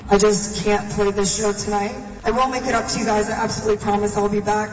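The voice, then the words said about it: Sad, tearful speaking voice. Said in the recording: “she sounds so sad. She was crying on stage”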